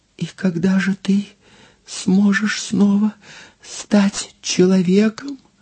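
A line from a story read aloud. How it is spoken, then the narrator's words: Trembling voice. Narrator (Russian): спросила дрожащим голосом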